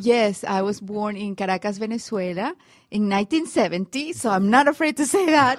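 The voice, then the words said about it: Latina accent. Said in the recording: “The microphones identify that I am a Latina, so they give me the accent”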